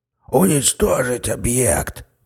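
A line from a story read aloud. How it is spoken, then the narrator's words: Wheezing, choking on blood. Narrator (Russian): прохрипел подполковник, отхаркивая густую кровь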